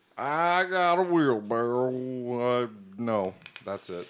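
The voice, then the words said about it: Impression of Justin Chambers. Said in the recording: “your imitation of Justin Chambers”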